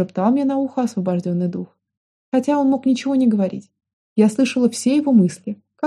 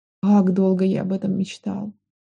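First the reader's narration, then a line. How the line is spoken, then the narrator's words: Sighing. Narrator (Russian): вздохнула я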